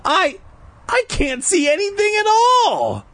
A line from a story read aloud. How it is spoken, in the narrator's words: I cried